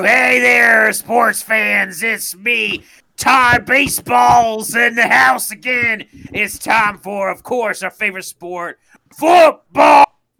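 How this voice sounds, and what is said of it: Sports announcer voice. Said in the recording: “Do a voice. That sounds like a sports announcer.”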